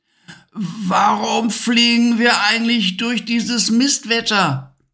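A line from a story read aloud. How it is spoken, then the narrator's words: Shouting over a storm. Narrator (German): brüllte Levi gegen den heulenden Sturm an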